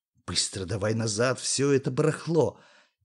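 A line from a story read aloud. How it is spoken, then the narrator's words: Quiet. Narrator (Russian): тихо сказал Юре Сашуня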